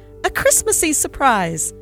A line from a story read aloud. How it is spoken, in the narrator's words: shrieked Roger